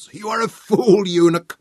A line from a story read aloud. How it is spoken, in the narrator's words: roared